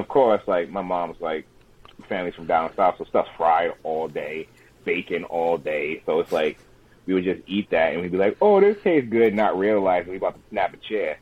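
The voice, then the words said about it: Rhode Island accent. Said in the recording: “It sounded like John right there. ... It's the Rhode Island accent, man.”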